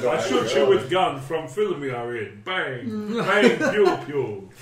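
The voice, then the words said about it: Silly put-on foreign accent. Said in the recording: “that stupid accent we put on”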